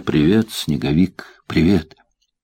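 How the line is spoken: Whisper. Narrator (Russian): она прошептала

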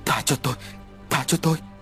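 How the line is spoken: Two men, frightened. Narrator (Vietnamese): Tiếng của hai tên nói trong sự sợ hãi

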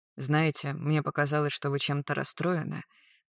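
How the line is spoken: Soft gentle voice. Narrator (Russian): почти по-рикошетовски мягко сказал Магарыч

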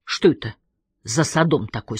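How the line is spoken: Plain question. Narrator (Russian): спросила Лилит

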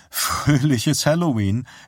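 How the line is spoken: Snort with slight laugh. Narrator (German): schnaubte Sarah und lachte ein wenig

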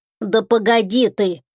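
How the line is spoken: Snort. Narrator (Russian): фыркнул Тишка

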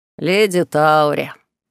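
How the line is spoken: Solemn proclamation. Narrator (Russian): торжественно провозгласил Берт

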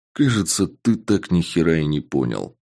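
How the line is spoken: Calm. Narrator (Russian): сказал я спокойно

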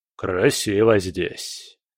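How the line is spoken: Thoughtful remark. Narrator (Russian): заметил он задумчиво

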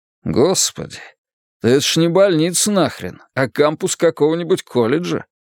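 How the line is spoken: Chuckling. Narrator (Russian): Таксист хохотнул

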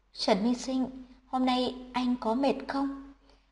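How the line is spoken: Soft question. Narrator (Vietnamese): bỗng nhiên khẽ hỏi

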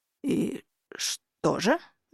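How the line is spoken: Strained, forced out. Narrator (Russian): выдавил Хартат

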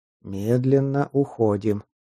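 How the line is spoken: Quiet. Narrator (Russian): тихо произнес он

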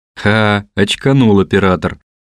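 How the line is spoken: Laughing friends. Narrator (Russian): засмеялись друзья Куцапова-младшего

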